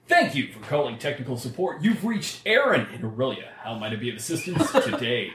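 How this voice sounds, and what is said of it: Announcer voice. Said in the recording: “About 50% of the calls that I answer, I do with an announcer voice.”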